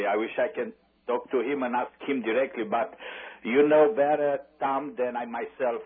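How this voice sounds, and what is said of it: Noticeable accent. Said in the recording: “I love your accent, brother.”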